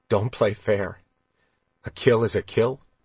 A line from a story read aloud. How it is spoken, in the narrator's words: After a long moment, Kylar asked bitterly